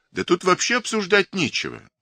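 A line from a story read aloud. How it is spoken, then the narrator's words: Exclaiming. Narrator (Russian): воскликнул главный электрик Корнеев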